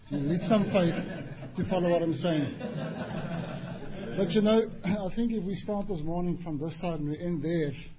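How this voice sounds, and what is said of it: Strong Afrikaans South African accent. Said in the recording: “My accent came brutal. I'm Afrikaans-speaking South African ... my accent is brutal”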